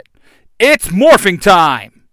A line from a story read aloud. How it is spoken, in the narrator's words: Jason shouts